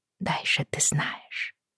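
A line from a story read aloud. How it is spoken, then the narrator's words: Whispered. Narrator (Russian): шепотом повторила Бриана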